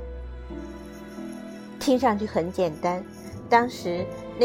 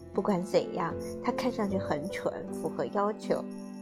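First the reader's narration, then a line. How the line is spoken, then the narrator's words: Sighing. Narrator (Chinese): 马克思叹口气说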